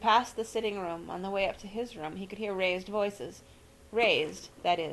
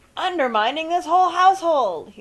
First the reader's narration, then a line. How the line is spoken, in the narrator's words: shout